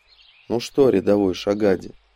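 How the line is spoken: Tired voice. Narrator (Russian): усталым голосом произнес он

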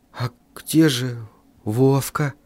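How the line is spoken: Whisper. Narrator (Russian): прошептал я

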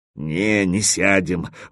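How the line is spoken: Suddenly dejected voice. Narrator (Russian): вдруг упавшим голосом сказал Кирза

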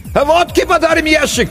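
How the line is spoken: Distant shout. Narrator (Russian): крикнули оттуда

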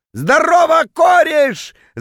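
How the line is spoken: Drunken yelling. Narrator (Russian): заорал он дурным пьяным голосом

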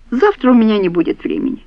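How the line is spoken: Calm explanation. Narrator (Russian): спокойно пояснил его светлость

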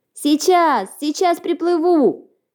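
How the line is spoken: Shouting little mouse. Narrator (Russian): закричал мышонок

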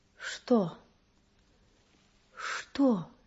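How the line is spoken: Frightened plaintive question. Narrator (Russian): испуганно, жалобно спросила она, приподнимаясь на кровати

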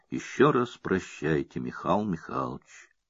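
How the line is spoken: Weak voice. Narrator (Russian): Александр произносит слабым голосом

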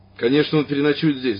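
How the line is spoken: Sudden angry woman. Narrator (Russian): вдруг сердито ответил за него женщина

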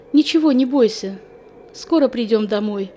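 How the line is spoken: Confident voice. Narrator (Russian): вслух уверенным голосом сказала

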